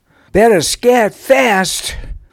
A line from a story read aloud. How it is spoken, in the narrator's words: While remaining out of sight, he shouted a warning